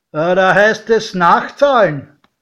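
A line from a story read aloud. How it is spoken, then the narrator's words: Calling out. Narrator (German): rief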